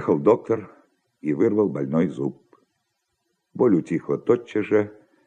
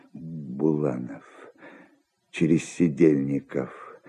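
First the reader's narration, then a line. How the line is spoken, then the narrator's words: Muttering. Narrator (Russian): бормотал он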